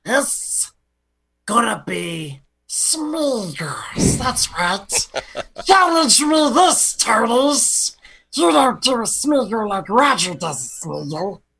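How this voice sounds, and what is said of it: Fake caller doing Smeagol voice. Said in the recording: “doing his own caller impression doing Smeagol”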